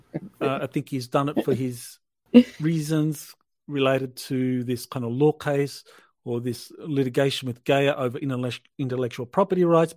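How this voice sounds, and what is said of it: Australian accent. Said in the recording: “the Australian accent is beautiful on that”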